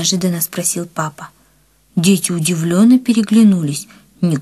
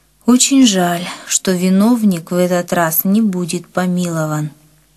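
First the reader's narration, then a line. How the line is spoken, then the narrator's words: Said sadly. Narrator (Russian): Папа печально сказал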